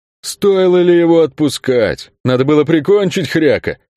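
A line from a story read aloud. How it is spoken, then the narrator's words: Booming, childishly hurt. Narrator (Russian): прогудел Кельк с совершенно детской обидой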